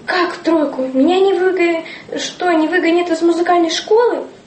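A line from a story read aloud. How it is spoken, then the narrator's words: Trembling frightened voice. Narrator (Russian): Рубашкин, сильно побледневший, дрожащим голосом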